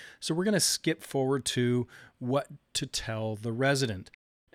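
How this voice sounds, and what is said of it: Usual voice. Nothing is said of it.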